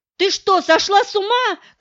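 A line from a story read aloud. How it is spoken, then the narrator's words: Shout. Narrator (Russian): крикнул Стешенко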